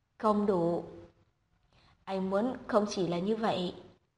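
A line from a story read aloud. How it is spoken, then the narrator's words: Breathy murmur against lips. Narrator (Vietnamese): Chu Hàn nhẹ nhàng hít thở, dán môi mình vào môi cô nói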